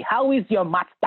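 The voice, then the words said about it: Imitated Nigerian accent. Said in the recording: “Does he still have the Nigerian accent? Because I can hear it. ... Oh, that's how he sounds.”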